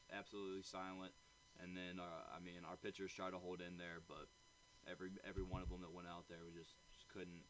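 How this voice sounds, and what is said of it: Hoarse voice. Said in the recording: “it's a little hoarse right now.”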